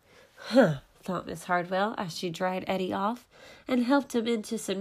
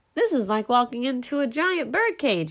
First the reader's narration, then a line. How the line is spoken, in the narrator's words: yelled Jack